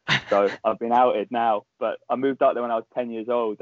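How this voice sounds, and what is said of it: Clear southern English accent. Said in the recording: “I don't sound Scottish ... I never got any hint of a Scottish accent, so I just sound southern as hell. So this is well, English southern, that is ... yours is so clear”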